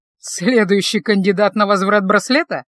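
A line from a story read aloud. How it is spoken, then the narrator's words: Mocking tone. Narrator (Russian): насмешливо сказал Рудольф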